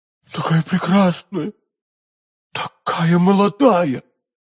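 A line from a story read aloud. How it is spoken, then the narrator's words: Exclaimed. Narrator (Russian): воскликнул Фельтон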